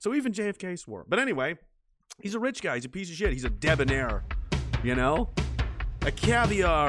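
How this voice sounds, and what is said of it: Usual voice. Nothing is said of it.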